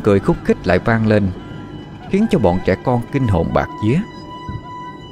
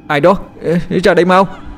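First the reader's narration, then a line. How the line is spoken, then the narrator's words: Stammering. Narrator (Vietnamese): Thằng Đạt lắp bắp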